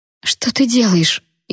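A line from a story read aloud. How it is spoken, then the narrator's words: Frightened squeak. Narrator (Russian): испуганно пискнула Наён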